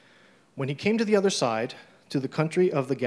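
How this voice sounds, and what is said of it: Usual voice. Nothing is said of it.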